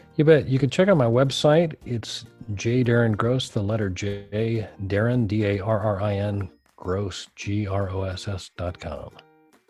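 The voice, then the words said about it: Smooth radio announcer voice. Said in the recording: “You got that radio voice going on.”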